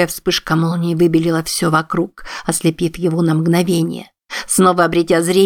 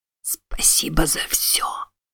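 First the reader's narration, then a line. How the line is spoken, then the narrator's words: Whispered. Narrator (Russian): ему показалось, что он услышал, как тот прошептал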